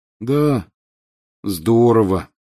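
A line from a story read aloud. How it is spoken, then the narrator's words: Glum agreement. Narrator (Russian): уныло подтвердил Рон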